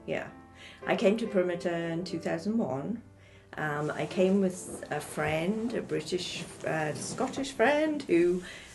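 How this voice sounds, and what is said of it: English accent. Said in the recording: “You'll notice the English accent.”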